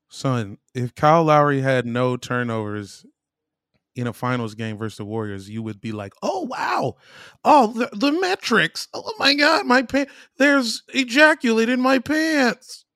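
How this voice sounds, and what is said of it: Impression of a co-host's speech. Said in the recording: “That's exactly how Mike talks. ... How good was that banner impression? ... That was so good.”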